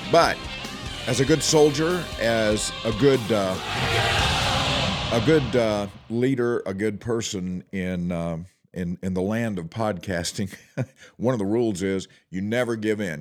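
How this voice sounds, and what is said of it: Unwell, affected speaking voice. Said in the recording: “I am not at my best today. As you can probably tell, my voice has been affected by this crud that I'm carrying around”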